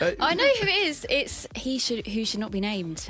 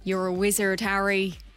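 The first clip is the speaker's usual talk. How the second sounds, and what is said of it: Impression of Hagrid character voice. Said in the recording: “do an impression ... Hagrid”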